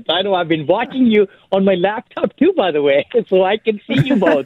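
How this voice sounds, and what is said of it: Speaks with a noticeable accent. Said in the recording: “you had an accent ... I can't hide my accent”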